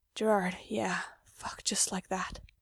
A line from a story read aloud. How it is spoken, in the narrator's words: Mikey's moaning, so soft, whispering